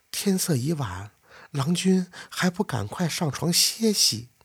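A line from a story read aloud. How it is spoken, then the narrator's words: Coy sweet urging. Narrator (Chinese): 这屋里那个声音又娇滴滴的催促道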